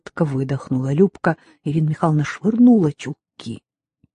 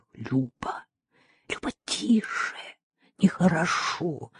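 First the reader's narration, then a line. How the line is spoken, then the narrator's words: Sobbing whisper. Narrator (Russian): шептала, всхлипывая Ирина Михайловна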